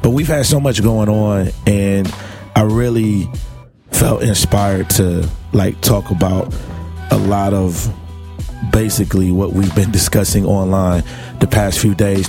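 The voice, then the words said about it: Hoarse, laryngitis-affected voice. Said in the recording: “I got a little bit of laryngitis ... I got sick, and this laryngitis kicked in”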